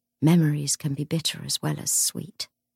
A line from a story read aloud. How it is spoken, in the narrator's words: she murmured